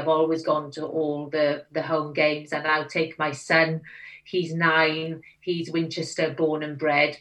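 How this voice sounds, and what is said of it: Welsh accent. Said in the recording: “I made a very conscious decision not to lose my accent ... they think I sound slightly posh ... up here I sound very Welsh.”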